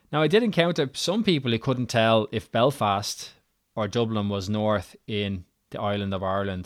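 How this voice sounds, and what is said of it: Irish accent. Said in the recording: “I couldn't get away from my Irishness ... My accent is my calling card”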